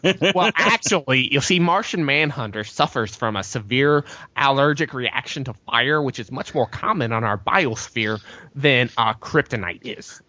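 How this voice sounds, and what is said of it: Nerdy character voice. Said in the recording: “nerd voice”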